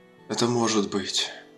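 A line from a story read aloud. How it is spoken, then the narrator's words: Breathy exhale. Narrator (Russian): выдохнул Кадгар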